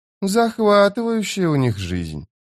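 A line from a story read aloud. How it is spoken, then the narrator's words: Drawled. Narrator (Russian): протянула Фелисин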